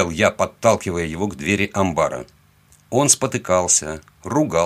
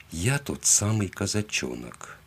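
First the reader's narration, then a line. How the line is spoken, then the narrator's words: Calm. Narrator (Russian): спокойно сказал я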